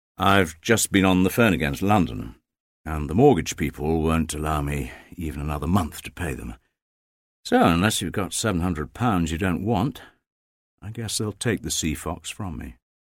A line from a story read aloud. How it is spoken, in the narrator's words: said bitterly